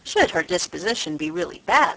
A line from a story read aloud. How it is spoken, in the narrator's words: said Sir Thomas